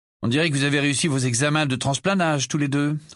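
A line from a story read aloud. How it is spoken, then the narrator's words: Grumpy remark. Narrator (French): remarqua Harry d'un ton grincheux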